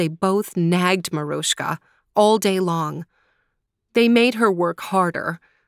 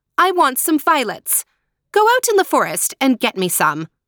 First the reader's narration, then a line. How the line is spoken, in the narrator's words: she ordered sharply